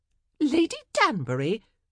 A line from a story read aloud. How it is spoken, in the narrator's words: they all exclaimed